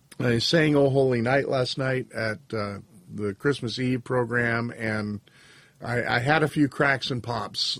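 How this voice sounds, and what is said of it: Hoarse, rattly voice. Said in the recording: “my voice was gone, and you can probably hear the rattle in it now ... the voice hasn't recovered yet”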